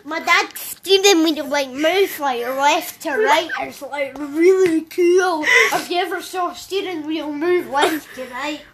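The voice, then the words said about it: Imitates another person's voice. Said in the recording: “I'll do my impression of you.”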